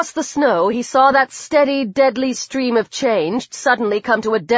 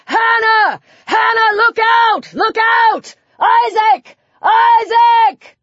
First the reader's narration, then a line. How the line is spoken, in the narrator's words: bellowed